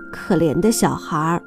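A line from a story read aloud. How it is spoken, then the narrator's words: Murmuring. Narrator (Chinese): 有人喃喃地说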